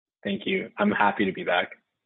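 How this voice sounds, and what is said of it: Flat monotone delivery. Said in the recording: “Hey, is that not done genuine? ... The monotone.”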